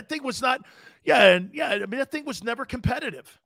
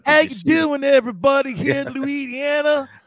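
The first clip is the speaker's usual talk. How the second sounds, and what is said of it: Fake Southern accent. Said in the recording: “fake Southern accent”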